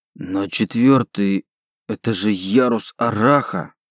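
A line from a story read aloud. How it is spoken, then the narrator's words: Muttered. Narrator (Russian): пробормотал он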